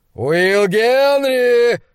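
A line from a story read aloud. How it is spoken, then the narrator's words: Roaring shout. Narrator (Russian): взревел он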